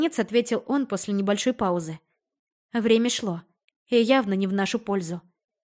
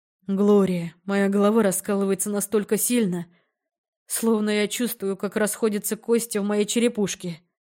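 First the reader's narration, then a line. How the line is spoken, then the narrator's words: Moaning. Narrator (Russian): Простонал Эл Патрик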